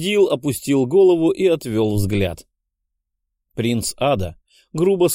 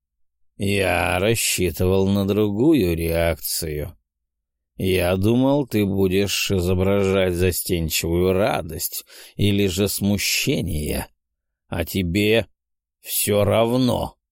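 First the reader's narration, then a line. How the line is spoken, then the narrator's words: Hoarse, disappointed. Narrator (Russian): С нескрываемым разочарованием прохрипел принц Ада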